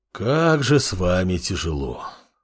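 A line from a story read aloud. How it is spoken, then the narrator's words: Sighing. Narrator (Russian): вздохнул Амор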